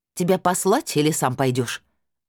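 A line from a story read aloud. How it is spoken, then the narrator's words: Angry, unrestrained bark. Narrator (Russian): рявкнула я, уже не сдерживаясь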